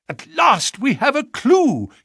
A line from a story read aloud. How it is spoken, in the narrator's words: he cried